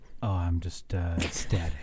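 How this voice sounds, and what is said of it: Sexy gravelly Batman-like radio voice. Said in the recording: “My sexy Louisville radio voice ... Kind of like Christian Bale's Batman voice.”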